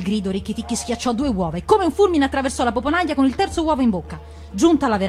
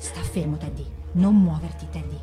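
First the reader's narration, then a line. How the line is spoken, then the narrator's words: Helpless murmur. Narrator (Italian): non poteva che mormorare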